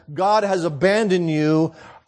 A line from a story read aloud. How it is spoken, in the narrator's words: says